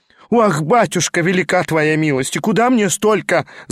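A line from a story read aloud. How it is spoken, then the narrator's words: Wailed, widow. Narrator (Russian): завопила было вдовица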